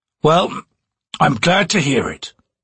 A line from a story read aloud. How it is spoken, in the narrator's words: Whiskey Jack growled